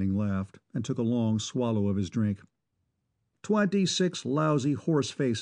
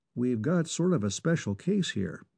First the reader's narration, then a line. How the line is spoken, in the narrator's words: Reinison said evenly